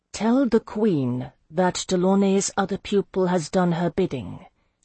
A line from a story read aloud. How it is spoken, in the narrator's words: said coolly in Dangeline